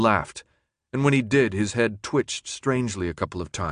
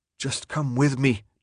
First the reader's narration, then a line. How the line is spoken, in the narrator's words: Thomas begged